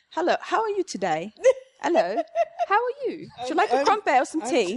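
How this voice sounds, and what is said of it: Put-on British accent. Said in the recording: “I can do a British accent ... all of a sudden I'm like British accent”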